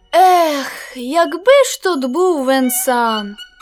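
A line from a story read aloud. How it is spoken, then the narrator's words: Sad sigh. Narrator (Ukrainian): Сумно зітхнув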